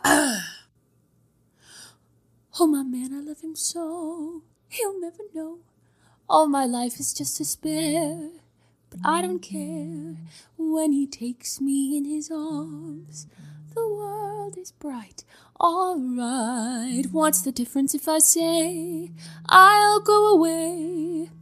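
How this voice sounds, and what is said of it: Singing impression of Rachel Berry. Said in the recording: “that Rachel Berry impression”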